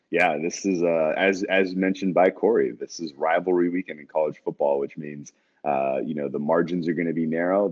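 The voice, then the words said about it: Raspy, tired-sounding voice. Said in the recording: “raspy voice. You're a little tired”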